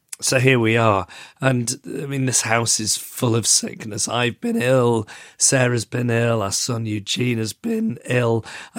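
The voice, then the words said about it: Very bad, sick-sounding voice. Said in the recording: “as you can hear from my voice. I mean, I do think this episode is going to be quite painful to listen to. ... Your voice is very bad.”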